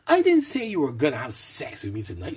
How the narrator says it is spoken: snapped back testily

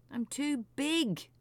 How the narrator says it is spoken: moaned the whale

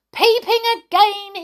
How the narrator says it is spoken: he shouted

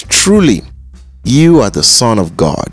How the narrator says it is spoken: they exclaimed

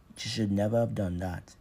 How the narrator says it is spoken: he said, pronouncing the English words easily in his deep accent

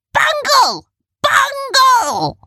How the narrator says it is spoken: one of the other Rumples shouted

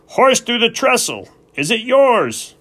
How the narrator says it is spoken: The engineer cupped his hands around his mouth and shouted

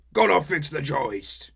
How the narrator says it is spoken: troll shouted something that sounded like

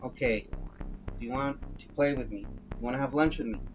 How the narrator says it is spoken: I asked him

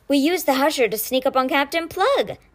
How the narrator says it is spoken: Ty announced with a burst of giggles

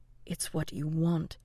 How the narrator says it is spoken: his mind whispered

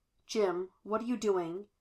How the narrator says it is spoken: He asked, keeping his voice even

